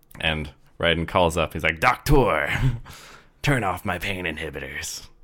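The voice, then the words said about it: Imitates a video game character's voice. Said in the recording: “That's actually a really good impression.”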